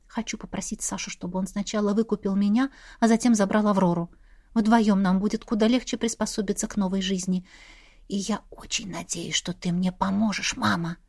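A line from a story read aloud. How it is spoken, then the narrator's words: Whispered reply. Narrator (Russian): Таким же шепотом ответила я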